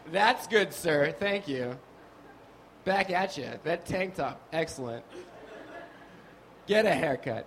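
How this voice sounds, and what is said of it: Put-on New York accent. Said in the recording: “I don't even have a New York accent. I don't know why I've been doing it this whole show. I'm from Nevada.”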